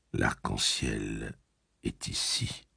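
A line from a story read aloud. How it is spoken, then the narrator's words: Soft gunslinger voice. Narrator (French): dit le pistolero, doucement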